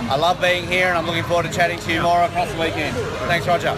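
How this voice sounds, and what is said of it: Strong accent. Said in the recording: “Ignore my accent. It's terrible.”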